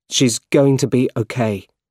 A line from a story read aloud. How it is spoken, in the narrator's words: said Peter